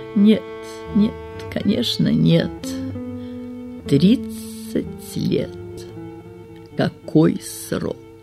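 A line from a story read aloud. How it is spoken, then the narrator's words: Muffled, hermit. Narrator (Russian): глухо произнес отшельник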